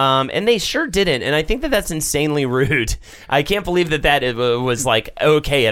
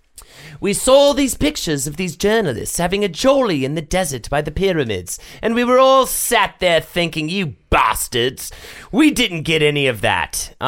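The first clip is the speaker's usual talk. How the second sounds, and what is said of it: Put-on British accent. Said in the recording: “I should probably do this in British accent.”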